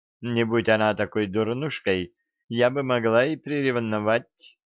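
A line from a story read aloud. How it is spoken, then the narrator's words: Said with a giggle. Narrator (Russian): сказала Вестал, хихикнув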